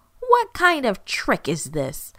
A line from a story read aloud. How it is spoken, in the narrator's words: shouted